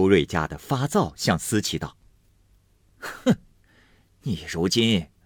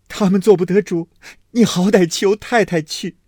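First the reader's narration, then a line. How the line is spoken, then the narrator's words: Crying. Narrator (Chinese): 思琪因见了宝玉，因……哭道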